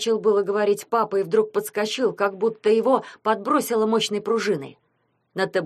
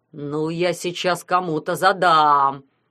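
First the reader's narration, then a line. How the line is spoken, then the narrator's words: Angry howl, father. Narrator (Russian): взвыл папа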